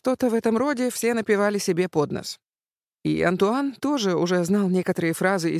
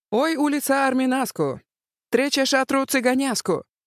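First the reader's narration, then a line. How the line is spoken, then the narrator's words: Gypsy woman wailing loudly. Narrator (Russian): цыганка Марчелка завопила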